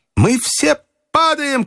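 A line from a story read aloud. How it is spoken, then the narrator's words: Shout. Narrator (Russian): крикнул Фергюсон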